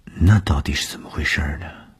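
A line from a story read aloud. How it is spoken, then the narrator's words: Shy murmur. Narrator (Chinese): 东风的脸上飞过红晕，喃喃地说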